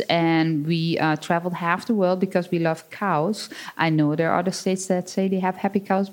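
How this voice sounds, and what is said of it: Dutch accent. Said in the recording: “my accent, like, you wouldn't believe it, but I'm not really from Wisconsin... born and raised on a 60-cow dairy farm in the Netherlands”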